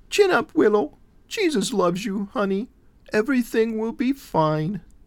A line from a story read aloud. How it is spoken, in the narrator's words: said in her little girl's voice